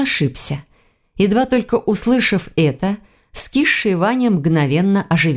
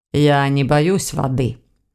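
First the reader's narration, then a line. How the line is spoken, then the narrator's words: Calm correction. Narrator (Russian): спокойно поправил Войтых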